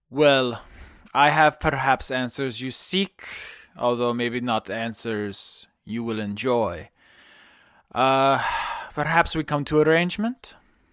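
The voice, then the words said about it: Put-on Ukrainian accent. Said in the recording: “my Ukrainian accent”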